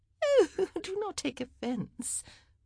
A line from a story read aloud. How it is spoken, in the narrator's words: Cressida said, with a little tinkle of laughter that Penelope found rather frightening